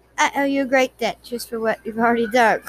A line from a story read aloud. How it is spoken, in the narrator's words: Claire said